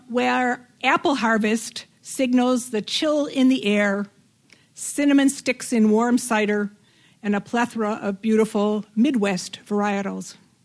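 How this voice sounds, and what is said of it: Chicago accent. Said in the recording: “If you can't tell by my accent, I'm originally from Chicago”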